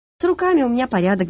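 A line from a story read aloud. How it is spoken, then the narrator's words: Sighing. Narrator (Russian): вздохнула Катюня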